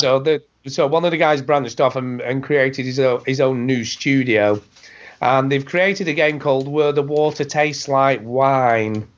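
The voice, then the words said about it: Rough voice from a bad cold. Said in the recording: “excuse the voice, by the way. It is getting quite bad because I'm talking a lot ... you sound horrible ... I've got a bad cold”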